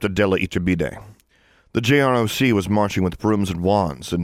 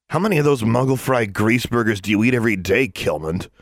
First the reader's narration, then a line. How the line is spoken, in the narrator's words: sneered Theo Panos